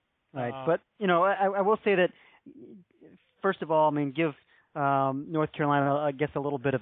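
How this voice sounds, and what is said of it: Usual voice. Nothing is said of it.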